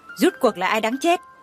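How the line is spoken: Angry. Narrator (Vietnamese): tức giận

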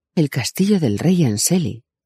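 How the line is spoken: Amazed exclamation. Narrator (Spanish): exclamó Christian, maravillado

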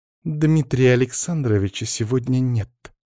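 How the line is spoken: Words through clenched teeth. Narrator (Russian): сквозь зубы процедила Белоснежка

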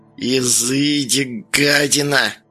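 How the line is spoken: Old woman hissing through teeth. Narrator (Russian): процедила бабка

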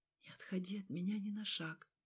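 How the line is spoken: Whisper. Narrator (Russian): он прошептал

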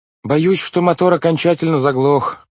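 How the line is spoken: Shout. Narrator (Russian): крикнул мистер По

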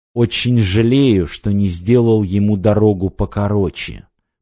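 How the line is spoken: Lord speaking through gritted teeth. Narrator (Russian): процедил сквозь зубы властелин

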